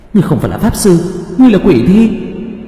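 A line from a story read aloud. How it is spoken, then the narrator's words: Wounded panicked cry. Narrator (Vietnamese): phun ra một ngụm máu, thất thanh kêu lên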